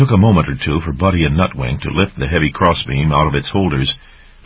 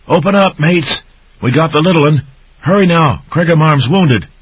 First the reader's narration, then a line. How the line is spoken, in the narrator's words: Skipper pounded on the main abbey wall gate, calling urgently to the gatekeepers